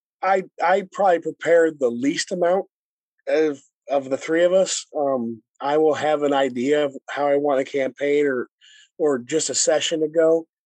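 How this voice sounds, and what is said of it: Hoarse, strained voice. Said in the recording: “apologize for the voice, I'm going through a laryngitis thing”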